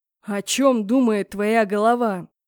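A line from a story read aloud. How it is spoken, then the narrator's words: Growling. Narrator (Russian): прорычал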